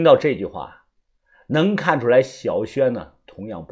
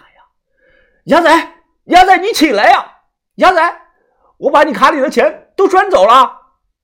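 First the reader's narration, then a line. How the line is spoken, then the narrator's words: Loud shout. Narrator (Chinese): 深呼吸了一口，冲着他大喊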